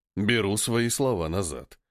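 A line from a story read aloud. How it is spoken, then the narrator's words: Gloomy conclusion. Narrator (Russian): мрачно заключает Драгон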